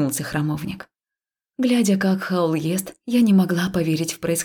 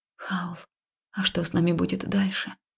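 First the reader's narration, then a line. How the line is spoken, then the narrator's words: Quiet question. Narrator (Russian): тихо спросила я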